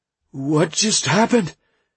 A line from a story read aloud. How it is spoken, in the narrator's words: he asked in a timid voice